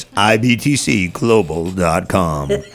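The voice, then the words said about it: Radio announcer voice. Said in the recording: “my radio voice”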